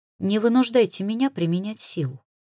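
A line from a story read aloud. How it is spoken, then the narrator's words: Icy tone. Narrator (Russian): Ледяным тоном произнесла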